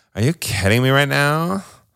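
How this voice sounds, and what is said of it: Valley girl style voice. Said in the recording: “Do your Drew accent. ... What am I, a valley girl?”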